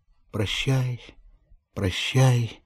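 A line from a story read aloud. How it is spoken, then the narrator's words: Sobbing farewell. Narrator (Russian): вырывалось у ней среди рыданий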